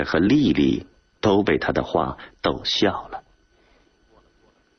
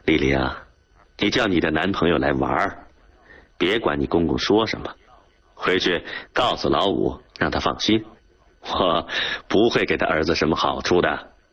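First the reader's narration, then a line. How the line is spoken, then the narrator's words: Joking. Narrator (Chinese): 他只好开玩笑地说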